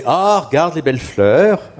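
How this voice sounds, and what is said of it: Northern French accent. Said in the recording (French): “l'accent du Nord est revenu là”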